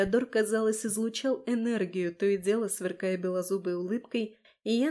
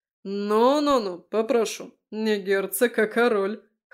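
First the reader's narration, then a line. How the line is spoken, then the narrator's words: Snort. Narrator (Russian): Хмыкнул Фео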